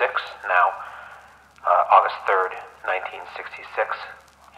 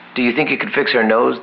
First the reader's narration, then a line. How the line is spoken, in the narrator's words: the man asks